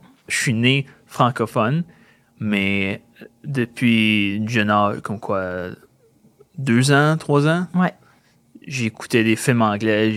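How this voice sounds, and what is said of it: Slight anglophone accent in French. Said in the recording (French): “ce jeune homme-là est-il anglophone Il a comme un accent.”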